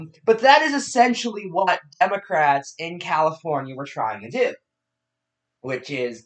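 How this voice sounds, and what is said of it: Usual voice. Nothing is said of it.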